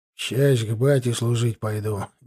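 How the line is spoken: Reluctant grumble. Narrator (Russian): неохотно буркнул он

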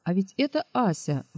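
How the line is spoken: Exclaiming. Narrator (Russian): воскликнул Гагин

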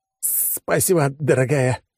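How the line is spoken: Forced, strained. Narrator (Russian): выдавил я из себя

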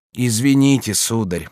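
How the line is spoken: Sad objection. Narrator (Russian): печально возразила Алоиза

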